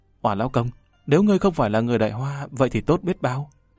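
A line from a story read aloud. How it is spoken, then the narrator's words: Trembling, close to ear. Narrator (Vietnamese): Nàng đột nhiên ghé sát tai hắn run rẩy nói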